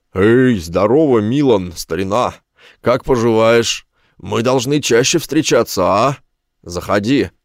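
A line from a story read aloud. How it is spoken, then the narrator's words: Roared. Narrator (Russian): проревел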